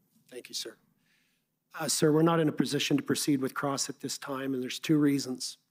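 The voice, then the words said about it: Hoarse, congested voice. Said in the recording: “I apologize for my voice. I'm recovering from a cold.”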